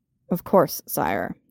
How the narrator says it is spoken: he said stiffly

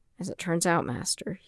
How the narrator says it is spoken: he said dryly

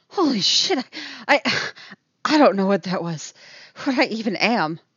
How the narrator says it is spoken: she pants

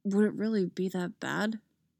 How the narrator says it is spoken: He mutters

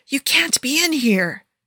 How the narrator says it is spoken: she hisses

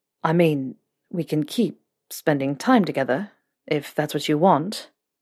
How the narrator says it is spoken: Draco said, hesitantly

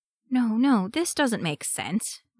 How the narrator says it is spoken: Raphael murmured

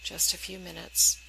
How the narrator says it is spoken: Sam says quietly

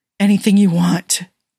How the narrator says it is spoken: Jim rasped

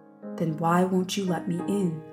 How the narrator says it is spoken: he asks gently

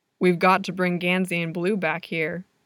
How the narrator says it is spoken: Ronan says

